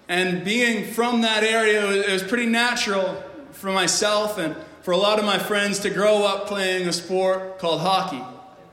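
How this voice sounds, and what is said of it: Canadian accent from New Brunswick. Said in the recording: “if my accent hasn't given it away yet, I'm not from here. ... I grew up in Canada in the frozen tundras of New Brunswick”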